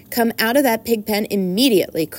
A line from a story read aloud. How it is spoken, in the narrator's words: cried Mrs